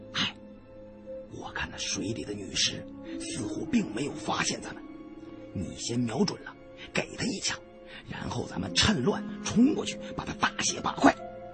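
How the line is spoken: Low voice. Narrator (Chinese): 我低声对身边的胖子说

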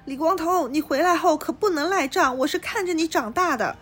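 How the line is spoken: Shouting. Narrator (Chinese): 苏妈对着他大喊

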